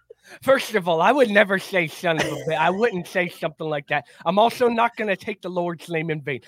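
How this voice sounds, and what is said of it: Exaggerated angry Lou Holtz impression. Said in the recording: “The voice is nothing really like Lou Holtz. It's so exaggerated ... can you do an angry Lou Holtz as he hears you make fun of him?”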